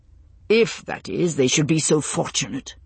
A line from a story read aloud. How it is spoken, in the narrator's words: he added, his voice hardening